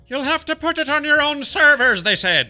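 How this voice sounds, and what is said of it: Poor put-on Irish accent. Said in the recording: “my Irish accent is pretty bad. It's pretty bad.”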